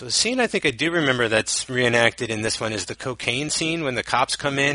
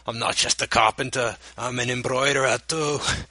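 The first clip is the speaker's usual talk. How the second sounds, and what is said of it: Bad, thick British accent. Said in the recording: “my terrible Christopher Eccleston, sh- crazy British accent ... it's like super thick”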